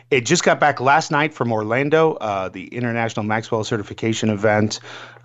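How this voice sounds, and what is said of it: Hoarse, worn-out voice. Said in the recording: “my voice is wrecked, man.”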